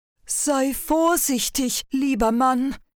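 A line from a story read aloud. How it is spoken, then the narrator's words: Giantess calling out. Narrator (German): rief die Riesin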